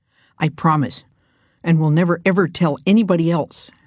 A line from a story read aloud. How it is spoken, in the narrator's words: Hank said rather fiercely